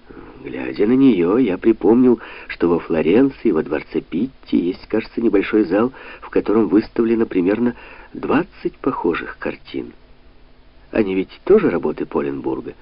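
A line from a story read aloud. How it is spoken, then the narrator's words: Plain. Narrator (Russian): спросил Санта-Мария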